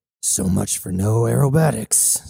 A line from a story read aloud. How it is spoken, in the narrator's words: Cybele moaned to himself